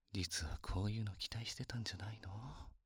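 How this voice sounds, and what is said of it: Whispering close to the ear. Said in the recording (Japanese): “耳元でささやかれるの好き？ ... こうやって耳でささやかれるの好きかって”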